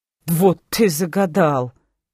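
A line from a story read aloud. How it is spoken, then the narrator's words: Involuntary snort. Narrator (Russian): фыркнула, не удержавшись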